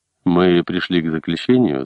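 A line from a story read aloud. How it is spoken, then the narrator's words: Plain. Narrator (Russian): сказал Высокий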